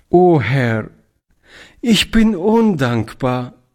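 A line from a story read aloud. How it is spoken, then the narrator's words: Tear-choked cry. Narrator (German): rief Toni mit tränenerstickter Stimme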